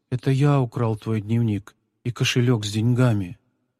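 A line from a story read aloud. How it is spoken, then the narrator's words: Quiet. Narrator (Russian): Павлик тихо произнес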